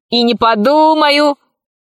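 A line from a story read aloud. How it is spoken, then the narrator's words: Boy shouting. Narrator (Russian): закричал мальчишка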